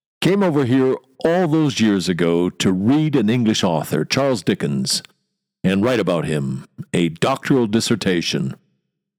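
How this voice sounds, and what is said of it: American accent with chewy diphthongs. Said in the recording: “Chewy diphthongs. That's how I describe my American accent.”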